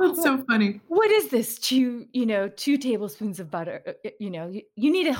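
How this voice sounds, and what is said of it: Usual voice. Nothing is said of it.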